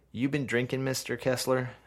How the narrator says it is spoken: asks the woman

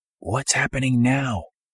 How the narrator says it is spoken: whispering into her ear

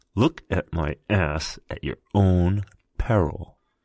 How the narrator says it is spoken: leaned over, smelling like milk and cinnamon, and hissed

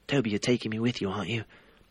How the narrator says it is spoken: Harry asked anxiously

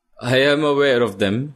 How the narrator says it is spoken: he laughs

